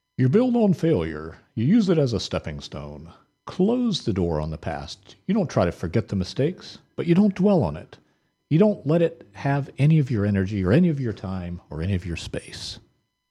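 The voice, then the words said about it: Poor imitation of another person's voice. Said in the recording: “Okay, that was terrible. That was my best Johnny Cash imitation, which I'm pretty sure you know is not a very good imitation.”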